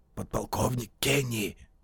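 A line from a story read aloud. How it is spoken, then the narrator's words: Whispered reply. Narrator (Russian): по-прежнему шепотом ответил голос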